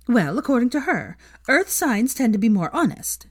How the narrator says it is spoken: Veronica began excitedly

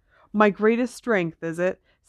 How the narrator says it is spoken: said Harry, his voice shaking

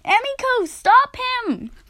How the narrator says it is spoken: cried Nadia

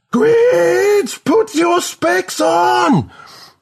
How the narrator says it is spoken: Melody screams again

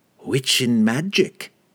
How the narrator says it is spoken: she cackled

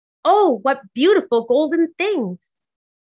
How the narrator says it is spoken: she exclaimed

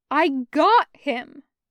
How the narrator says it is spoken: Taco says firmly

